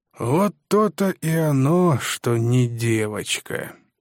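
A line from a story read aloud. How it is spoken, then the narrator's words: Drawled. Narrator (Russian): протянул Биком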